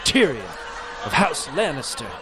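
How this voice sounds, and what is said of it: Smooth English-accented Tyrion Lannister voice. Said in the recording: “very smooth accent”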